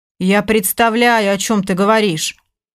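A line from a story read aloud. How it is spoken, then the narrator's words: Calm reply. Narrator (Russian): спокойно ответил Егор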